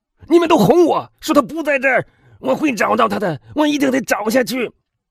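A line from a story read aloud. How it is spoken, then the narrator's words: Shouting. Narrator (Chinese): 他喊道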